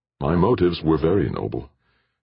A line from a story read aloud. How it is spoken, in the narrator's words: Jordan answered bitterly